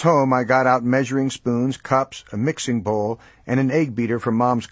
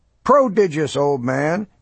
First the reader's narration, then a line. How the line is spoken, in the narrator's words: he cried